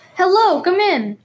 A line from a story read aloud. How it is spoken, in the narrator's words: cried Mr